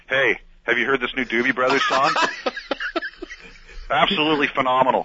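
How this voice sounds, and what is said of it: Imitates another person's voice. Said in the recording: “good daddy impersonation”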